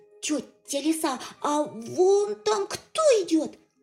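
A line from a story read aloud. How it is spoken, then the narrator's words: Shouted again. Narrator (Russian): опять закричал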